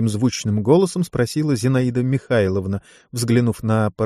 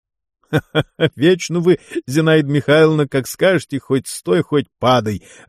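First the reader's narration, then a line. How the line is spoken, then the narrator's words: Laughing. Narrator (Russian): рассмеялся заведующий отделением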